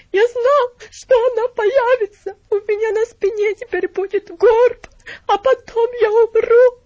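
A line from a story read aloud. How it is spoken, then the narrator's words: Sobbing, whimpering, not shouting. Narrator (Russian): стал всхлипывать и скулить, но не кричал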